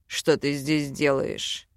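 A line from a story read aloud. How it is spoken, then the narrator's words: Hoarse, through split lips. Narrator (Russian): Хрипло спросил он, разбитыми губами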